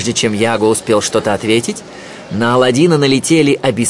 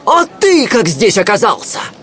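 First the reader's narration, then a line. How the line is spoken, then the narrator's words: Surprised exclamation. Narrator (Russian): воскликнул от удивления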